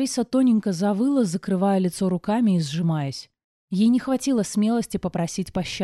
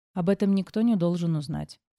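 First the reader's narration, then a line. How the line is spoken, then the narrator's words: Calm reply. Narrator (Russian): спокойно отозвалась я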